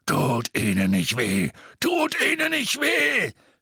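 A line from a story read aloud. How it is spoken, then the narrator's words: Scream. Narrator (German): schrie er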